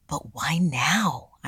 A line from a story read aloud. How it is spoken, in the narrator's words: I whispered back